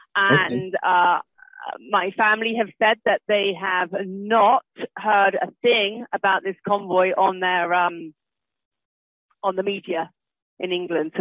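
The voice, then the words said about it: British accent. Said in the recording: “As you can tell from my accent, I am from Great Britain.”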